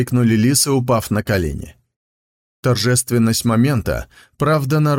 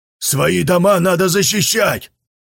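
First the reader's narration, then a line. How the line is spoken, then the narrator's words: Shout from behind. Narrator (Russian): крикнул кто-то из-за ее спины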